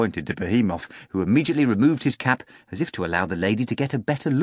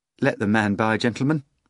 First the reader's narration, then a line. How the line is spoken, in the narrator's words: the lady said nervously